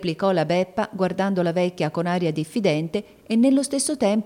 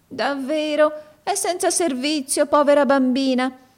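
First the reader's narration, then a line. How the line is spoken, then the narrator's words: Compassionate woman's exclamation. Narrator (Italian): esclamò con aria compassionevole la donna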